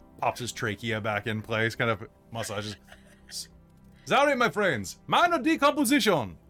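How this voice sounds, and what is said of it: Cajun-sounding character voice. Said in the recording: “Now he's Cajun.”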